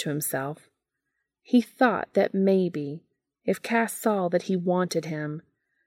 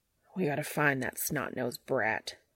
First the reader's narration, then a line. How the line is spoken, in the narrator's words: Dean grumbles